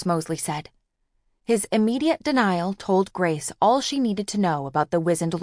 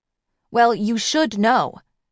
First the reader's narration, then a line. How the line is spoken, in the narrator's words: snapped